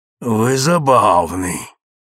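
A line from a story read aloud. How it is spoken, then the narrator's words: Growled. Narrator (Russian): прорычала Раиса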